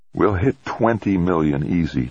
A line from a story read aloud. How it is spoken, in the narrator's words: Trumbull thought happily